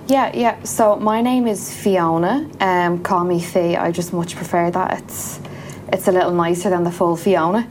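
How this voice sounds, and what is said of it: Irish accent. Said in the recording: “your lovely Irish accent”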